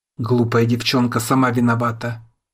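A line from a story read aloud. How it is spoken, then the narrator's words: Rough. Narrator (Russian): грубо произносит швейцарец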